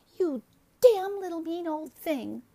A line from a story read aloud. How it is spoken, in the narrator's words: cried Miss Jones wildly